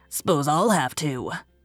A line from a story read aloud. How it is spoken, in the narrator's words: grunted